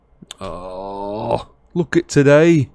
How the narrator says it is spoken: groaned Ron

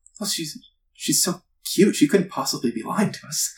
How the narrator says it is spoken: you hear some of them murmuring

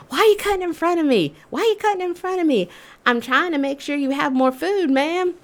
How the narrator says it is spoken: screaming

